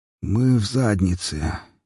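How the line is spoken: Hoarse. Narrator (Russian): сипло произнес друг

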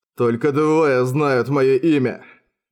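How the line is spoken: Growl. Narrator (Russian): прорычал он

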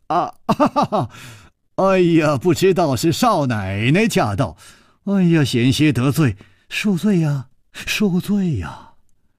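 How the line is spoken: Smiling. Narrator (Chinese): 楚留香微笑着说

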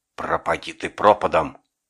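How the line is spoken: Loud hateful whisper. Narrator (Russian): Громко с ненавистью шепнула она

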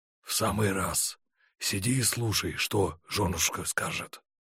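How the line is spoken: Whisper. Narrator (Russian): шепнул Панкратов

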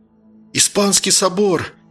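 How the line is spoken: Spellbound, forced out. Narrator (Russian): зачарованно выдавил из себя Ромка

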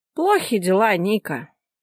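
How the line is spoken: Heavy, noisy sigh. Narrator (Russian): шумно вздохнул адвокат

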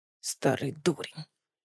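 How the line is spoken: Grumbled. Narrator (Russian): пробурчал тот

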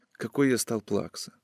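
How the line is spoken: Whisper. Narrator (Russian): прошептал он

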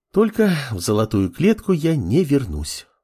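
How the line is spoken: Sighing. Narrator (Russian): вздохнула левитание

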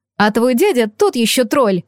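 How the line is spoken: Snorted. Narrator (Russian): фыркнула подруга

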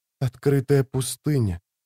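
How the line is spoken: Whispering. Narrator (Russian): прошептала она

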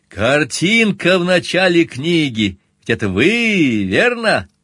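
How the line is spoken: Merry laughter. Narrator (Russian): Он весело расхохотался

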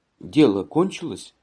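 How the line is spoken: Quiet question. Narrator (Russian): спросила мать тихо

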